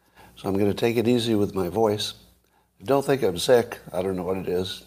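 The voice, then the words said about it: Hoarse voice from laryngitis. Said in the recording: “I've got a little bit of laryngitis today”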